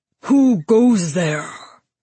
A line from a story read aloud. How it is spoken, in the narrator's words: the minotaur roared